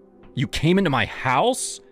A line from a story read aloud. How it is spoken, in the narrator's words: I snapped